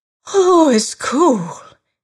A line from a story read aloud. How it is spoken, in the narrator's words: gasped